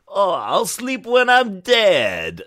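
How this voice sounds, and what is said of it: Ridiculous put-on character voice. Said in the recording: “His voice is so ridiculous.”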